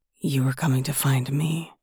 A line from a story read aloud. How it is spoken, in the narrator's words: rasped